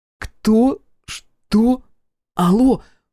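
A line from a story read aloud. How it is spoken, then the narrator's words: Stammering. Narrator (Russian): запинается Наджия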